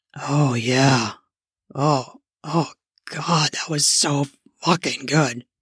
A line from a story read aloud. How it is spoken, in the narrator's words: muttered hoarsely